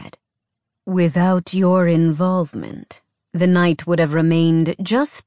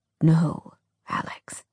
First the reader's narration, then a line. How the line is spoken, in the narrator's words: Hunter said quietly